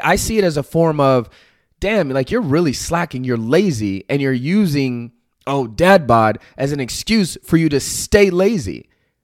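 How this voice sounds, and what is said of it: Loud, passionate, almost yelling. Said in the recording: “if it sounds like I'm yelling, it's because I'm so passionate”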